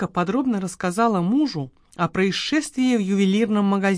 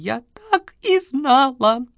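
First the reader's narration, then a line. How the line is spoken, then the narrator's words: Sobbing words. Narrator (Russian): Прорвались сквозь рыдания слова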